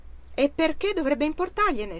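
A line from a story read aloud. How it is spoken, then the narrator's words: Shrieking. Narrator (Italian): strillò il signor Allouin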